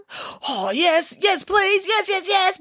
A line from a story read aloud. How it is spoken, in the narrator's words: bellowed all the animals